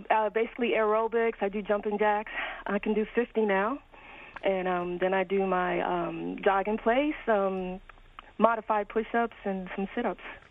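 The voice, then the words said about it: Out of breath, winded. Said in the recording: “I'm out of breath because I've been exercising”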